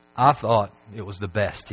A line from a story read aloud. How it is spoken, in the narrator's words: he said